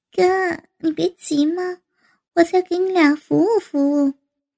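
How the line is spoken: Laughing. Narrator (Chinese): 王丹笑道

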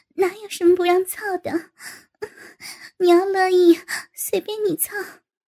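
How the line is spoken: Laughing. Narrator (Chinese): 高芳笑道

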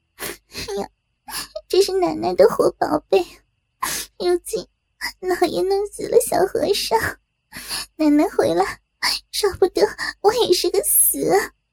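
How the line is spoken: Hurried crying. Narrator (Chinese): 暖玉忙哭道

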